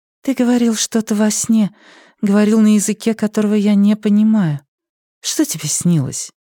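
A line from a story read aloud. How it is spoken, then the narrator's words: Sighing. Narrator (Russian): Вивьен вздохнул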